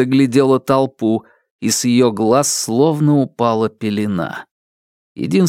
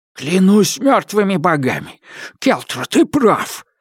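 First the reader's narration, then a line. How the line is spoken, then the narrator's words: Breathless exhale. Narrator (Russian): выдохнул Острый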